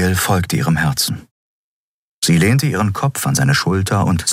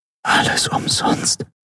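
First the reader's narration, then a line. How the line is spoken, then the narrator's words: Whispered. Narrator (German): flüsterte sie mit geschlossenen Augen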